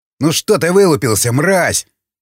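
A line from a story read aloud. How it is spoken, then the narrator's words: Barked. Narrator (Russian): рявкнул он на одного из шестерых пленных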